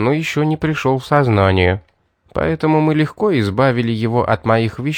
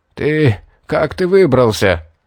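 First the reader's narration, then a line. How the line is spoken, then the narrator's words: Hunted hoarse rasp. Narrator (Russian): прохрипел затравленно мужчина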